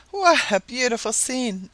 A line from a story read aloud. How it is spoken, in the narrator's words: exclaimed Mrs